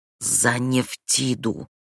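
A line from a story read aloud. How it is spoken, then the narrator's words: Hissed. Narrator (Russian): он прошипел два слова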